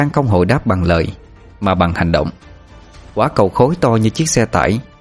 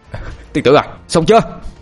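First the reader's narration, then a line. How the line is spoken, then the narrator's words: Loud strained shout. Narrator (Vietnamese): Anh Thông dường như sắp quá sức, anh hét lớn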